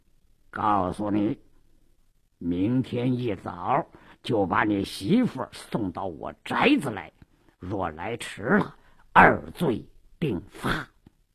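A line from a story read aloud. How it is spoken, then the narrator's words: Lowered voice. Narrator (Chinese): 鲁斋郎压低了声音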